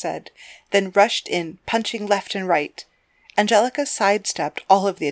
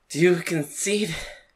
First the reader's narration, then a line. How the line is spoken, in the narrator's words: asked, while panting, laying flat on the floor of the ring